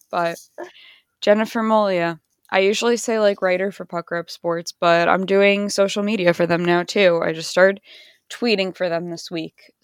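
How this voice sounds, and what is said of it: Strained, losing her voice. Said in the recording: “my voice sounds so bad ... I need to drink more water. I'm losing my voice”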